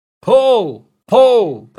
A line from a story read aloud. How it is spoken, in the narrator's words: the men in the boats shouted